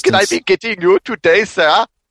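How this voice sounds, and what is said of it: Exaggerated mock Indian accent. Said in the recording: “That was the most insulting Indian accent ever.”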